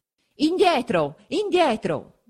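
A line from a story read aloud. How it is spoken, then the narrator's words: Guards shouting. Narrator (Italian): gridano gli alabardieri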